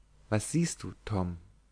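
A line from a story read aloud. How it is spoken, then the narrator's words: Quiet dismayed question. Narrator (German): betroffen fragte leise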